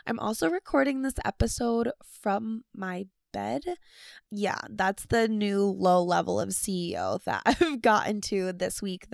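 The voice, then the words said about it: Sick, rough raspy voice. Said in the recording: “I am so sick. That is why my voice sounds like this ... why I sound like an old man that's been smoking for the last 100 years”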